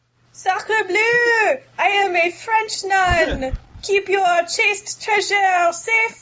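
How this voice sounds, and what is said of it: Put-on French accent. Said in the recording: “I do like the French accent.”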